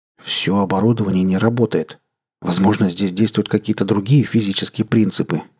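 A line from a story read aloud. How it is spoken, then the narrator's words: Uncertain mutter. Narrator (Russian): неуверенно пробормотал Томео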